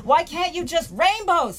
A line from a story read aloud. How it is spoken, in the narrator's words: he shouts